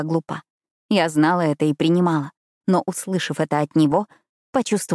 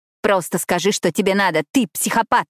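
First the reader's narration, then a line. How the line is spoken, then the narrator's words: Barked. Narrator (Russian): рявкнула я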